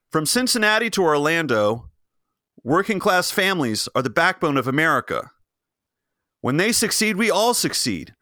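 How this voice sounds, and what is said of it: Mimics a State of the Union speech. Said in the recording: “my impression of of every State of the Union speech I've ever heard”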